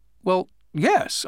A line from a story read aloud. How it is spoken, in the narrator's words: I replied